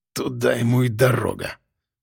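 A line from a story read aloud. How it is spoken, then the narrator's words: Hissed. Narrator (Russian): прошипел физрук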